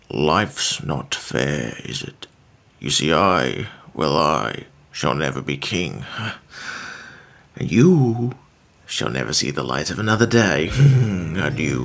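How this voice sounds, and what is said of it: Impression of Scar from The Lion King. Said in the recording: “your impression of Scar from The Lion King”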